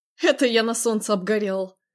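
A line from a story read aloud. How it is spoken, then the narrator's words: Snorting. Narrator (Russian): Фыркнул Виктор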